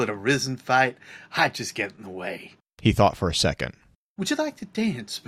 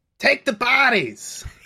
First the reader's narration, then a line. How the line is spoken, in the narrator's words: He yelled